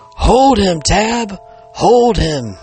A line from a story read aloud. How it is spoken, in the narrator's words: One of the men cried out